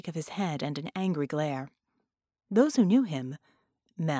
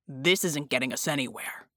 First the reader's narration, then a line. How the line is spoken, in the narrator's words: Jack growled